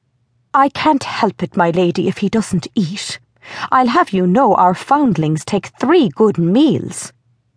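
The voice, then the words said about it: Dreadful, stern voice. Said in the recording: “said Matron in a dreadful voice.”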